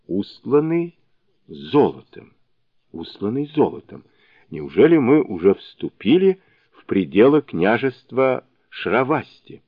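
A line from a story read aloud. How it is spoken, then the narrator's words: Barely audible repeating. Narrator (Russian): он чуть слышно повторял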